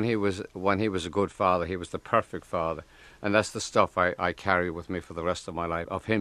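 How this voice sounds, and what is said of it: Usual voice. Nothing is said of it.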